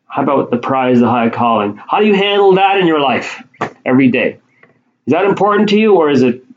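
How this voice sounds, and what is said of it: Shouting, raised loud voice. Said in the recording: “I'm shouting at myself”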